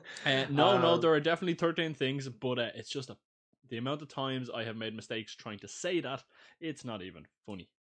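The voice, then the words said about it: Irish accent. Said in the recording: “your dodgy Irish accent”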